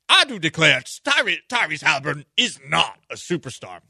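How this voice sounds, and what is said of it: Stephen A. Smith as Southern lawyer. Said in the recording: “That was a great Stephen A. Smith impersonation. I just made him into a Southern lawyer for some reason... Maybe more Johnny Cochran energy than Southern lawyer energy.”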